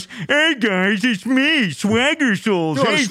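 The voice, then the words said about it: Unconvincing impression of another person's voice. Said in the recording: “the worst fucking impression ... It wasn't convincing.”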